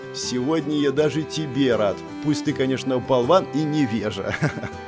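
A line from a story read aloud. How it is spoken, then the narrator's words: Ringing laughter. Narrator (Russian): Элмерик звонко рассмеялся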